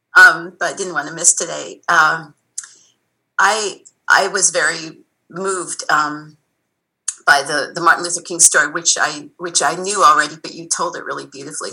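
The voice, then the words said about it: Unwell, affected voice. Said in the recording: “I apologize for my voice. I'm in a COVID-ridden family right now.”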